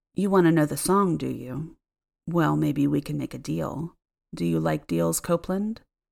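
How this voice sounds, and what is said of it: Low, menacing voice. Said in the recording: “he said in a low voice, sending shivers up my spine”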